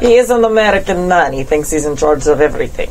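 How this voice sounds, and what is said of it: Put-on Russian accent. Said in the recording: “was that a Russian accent?”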